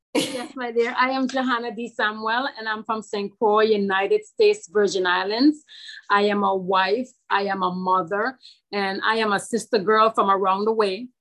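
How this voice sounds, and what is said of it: Virgin Islands accent. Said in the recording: “I love your accent.”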